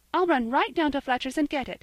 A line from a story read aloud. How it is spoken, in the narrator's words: cried Polly